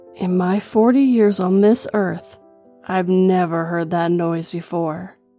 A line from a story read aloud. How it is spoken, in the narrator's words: whispered